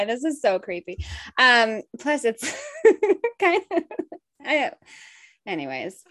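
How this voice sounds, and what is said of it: Usual voice. Nothing is said of it.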